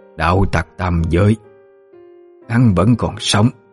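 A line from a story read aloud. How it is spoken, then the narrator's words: Terrified, stammering disbelief. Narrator (Vietnamese): Cửu tử quỷ mẫu, với vẻ thảng thốt kinh khiếp, lắp bắp như không thể tin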